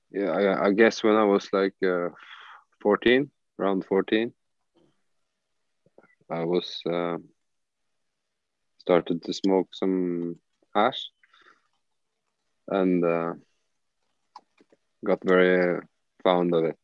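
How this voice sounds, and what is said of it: Foreign accent, possibly Dutch. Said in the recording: “Can we assume from the accent that it was like Dutch coffee shop kind of hash times?”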